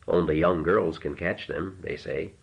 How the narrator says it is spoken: he murmured

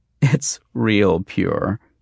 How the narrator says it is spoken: she said and giggled

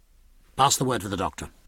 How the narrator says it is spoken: in an ordinary tone

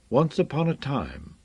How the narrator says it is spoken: Shan murmured

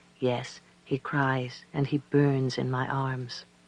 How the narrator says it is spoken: She talked slowly and softly, and Kamedan did the same when he answered, saying

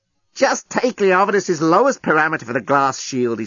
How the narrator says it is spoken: he snapped

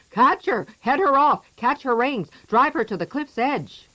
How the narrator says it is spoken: all of them went running after her, shouting

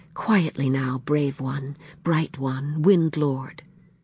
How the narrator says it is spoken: whispering

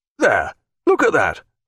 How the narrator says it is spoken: cried Mr

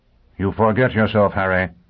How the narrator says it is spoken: Pristine said coldly

